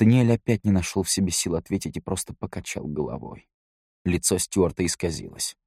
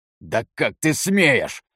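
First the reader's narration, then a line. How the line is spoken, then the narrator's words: Furious roar. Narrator (Russian): в бешенстве зарычал Натан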